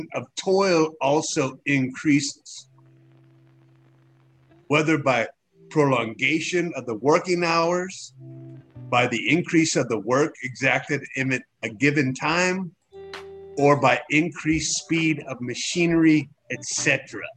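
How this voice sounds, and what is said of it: German-accented impression of a man. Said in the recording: “my impression of Karl Marx ... it wasn't quite German enough ... pretty spot on”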